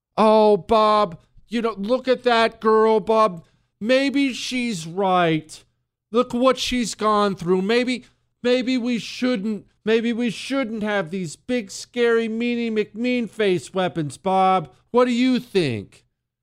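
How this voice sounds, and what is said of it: Mocking voice. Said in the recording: “mocking voice”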